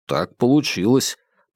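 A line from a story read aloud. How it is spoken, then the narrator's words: Grumbling. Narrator (Russian): пробурчал Вербин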